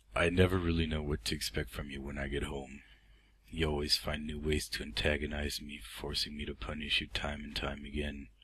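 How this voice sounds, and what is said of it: Regular American accent. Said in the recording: “my regular American accent”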